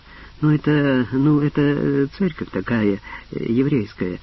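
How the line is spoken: Forced out with effort. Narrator (Russian): превозмогая себя, выдавил Кацнельсон

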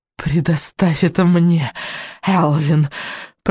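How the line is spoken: Hissed. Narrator (Russian): прошипела ведьма

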